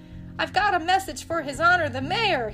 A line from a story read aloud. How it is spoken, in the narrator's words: he shouted again